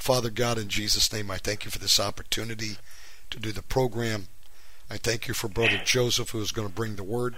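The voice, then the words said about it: Hoarse, strained voice. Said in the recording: “excuse my voice. I've lost it. I have a sinus infection ... my voice is jacked up.”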